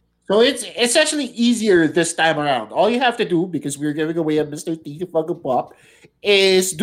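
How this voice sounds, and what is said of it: Usual voice. Nothing is said of it.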